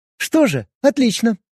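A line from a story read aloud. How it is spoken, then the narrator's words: Cheerful young woman. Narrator (Russian): бодро отреагировала девушка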